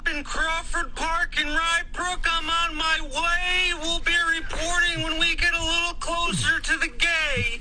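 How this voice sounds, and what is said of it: Slight Wisconsin accent, windy-sounding. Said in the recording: “it sounds like he's in a hurricane, like one of those reporters outside with the wind ... He's from the Wisconsin area, so he has like that little accent there.”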